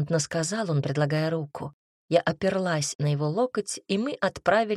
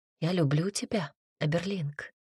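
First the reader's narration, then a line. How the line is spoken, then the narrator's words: Whisper. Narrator (Russian): прошептала я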